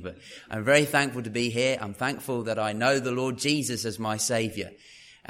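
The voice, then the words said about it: Proper English accent. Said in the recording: “he speaks proper English. Real proper English.”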